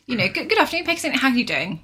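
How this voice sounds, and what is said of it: Polished professional phone voice. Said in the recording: “I do still put on my work voice ... I have a phone voice”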